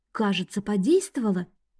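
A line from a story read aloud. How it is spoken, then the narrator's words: Whisper. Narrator (Russian): прошептала Эви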